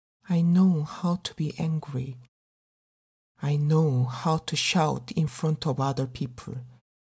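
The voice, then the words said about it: Speaks English with an accent. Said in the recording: “problem communicating in English if you bother listening to my accent”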